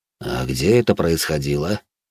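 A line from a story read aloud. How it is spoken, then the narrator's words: Calm question. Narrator (Russian): спокойно уточнил у нее командор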